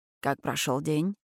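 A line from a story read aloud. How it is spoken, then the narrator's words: Muttering in ear. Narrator (Russian): бормочет он мне в ухо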